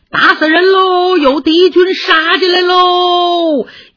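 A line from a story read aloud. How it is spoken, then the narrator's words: Shouting while running. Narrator (Chinese): 一边跑一边喊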